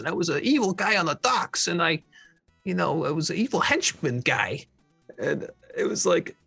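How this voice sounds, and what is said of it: Put-on accent for henchman character. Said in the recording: “My accent was kind of like this”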